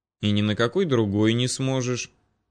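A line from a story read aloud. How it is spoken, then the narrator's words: Calm. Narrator (Russian): спокойно уведомил его Доминик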